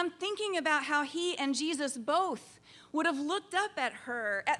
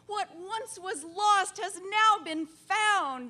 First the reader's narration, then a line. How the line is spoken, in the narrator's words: his family might have exclaimed